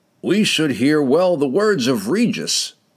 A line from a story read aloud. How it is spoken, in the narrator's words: he declared loudly